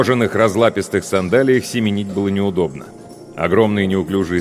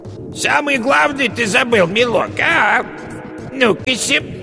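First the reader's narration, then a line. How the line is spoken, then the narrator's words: Witch's falsely thin call. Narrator (Russian): яга позвала фальшиво тонким голосом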